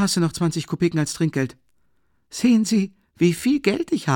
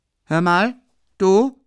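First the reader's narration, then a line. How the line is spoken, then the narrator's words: Calling out. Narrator (German): rief er dem Kellner zu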